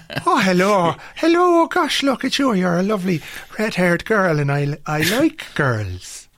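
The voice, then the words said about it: Deliberately bad put-on Irish accent. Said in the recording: “Irish accents on film and in television generally are fucking terrible ... even the Irish guy in this thing has got a bad Irish accent.”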